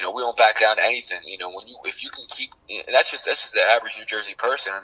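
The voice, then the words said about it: Loud New Jersey accent. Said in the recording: “Oh, Jersey, like, just my accent ... making fun of us three for our accents and how loud we are”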